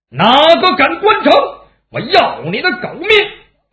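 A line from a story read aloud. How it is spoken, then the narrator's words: Loud shout. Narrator (Chinese): 姚七大喊了一声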